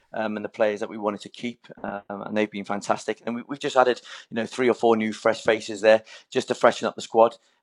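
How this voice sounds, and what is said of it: Welsh-tinged English accent. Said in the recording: “Quite a lot of Welsh in the accent.”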